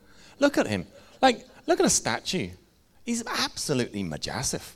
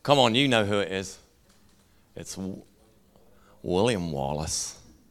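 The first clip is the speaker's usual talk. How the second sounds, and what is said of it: Poor put-on Scottish accent. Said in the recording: “That was a terrible attempt at a Scottish accent.”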